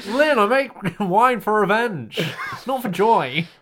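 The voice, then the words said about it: Bad Alan Partridge impression. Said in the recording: “It sounds like something Alan Partridge would say... Bad impression.”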